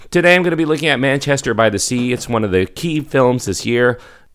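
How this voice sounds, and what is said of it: Strained voice from a cough. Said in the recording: “my voice is a little bit strained right now. I've been dealing with a nasty cough.”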